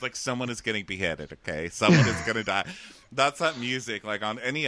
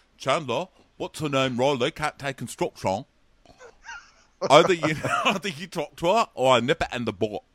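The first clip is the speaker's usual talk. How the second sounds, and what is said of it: Ross voice, marble-mouthed mumbling. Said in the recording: “This new Ross voice that you've busted out. ... it's kind of the same accent. It's just with marble mouth. Kind of talks like he has marble mouth.”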